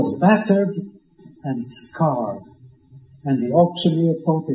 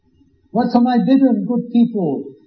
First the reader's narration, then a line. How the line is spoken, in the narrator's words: he cried